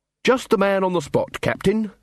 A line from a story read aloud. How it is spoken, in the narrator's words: said Carrot cheerfully